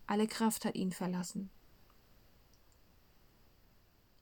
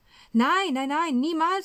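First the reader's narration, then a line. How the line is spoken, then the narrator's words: Calling out. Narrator (German): ruft Petrus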